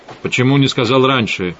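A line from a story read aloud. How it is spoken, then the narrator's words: Sharp question. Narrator (Russian): резко спросил Эдгар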